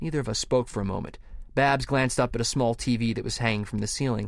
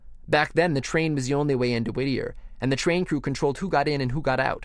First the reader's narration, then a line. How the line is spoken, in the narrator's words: said Babs